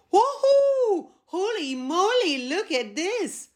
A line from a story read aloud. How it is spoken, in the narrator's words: The rabbit was amazed by her growing size and exclaimed